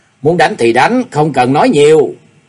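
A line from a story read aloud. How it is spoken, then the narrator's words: Raised voice. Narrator (Vietnamese): hắn cao giọng nói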